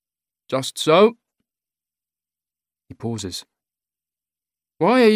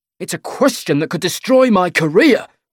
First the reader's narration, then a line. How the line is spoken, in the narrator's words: he says angrily